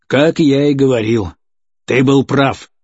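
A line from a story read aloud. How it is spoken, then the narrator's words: Angry admission. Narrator (Russian): зло признал Кочерга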